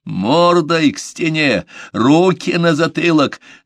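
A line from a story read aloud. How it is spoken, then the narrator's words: Exhausted, exasperated yell. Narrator (Russian): заорал Джанни, теряя последнее терпение и силы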